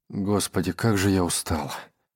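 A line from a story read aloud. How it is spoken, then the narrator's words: Mumble. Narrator (Russian): пробормотал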